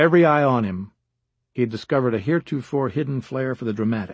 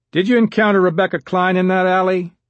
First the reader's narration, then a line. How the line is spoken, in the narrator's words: George Andrews asked in a loud voice